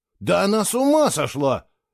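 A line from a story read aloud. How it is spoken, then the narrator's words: Heated exclamation. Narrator (Russian): с жаром воскликнул Фло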